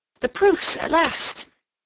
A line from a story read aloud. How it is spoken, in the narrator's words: Seal looked up with renewed hope in her eyes, and exclaiming